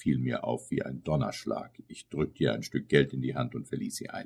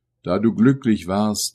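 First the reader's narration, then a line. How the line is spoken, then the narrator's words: Exclaimed. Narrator (German): rief ich aus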